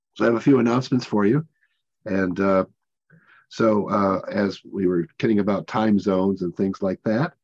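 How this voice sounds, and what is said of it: Rough, hoarse voice. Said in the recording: “Sorry for my voice, a little rough today.”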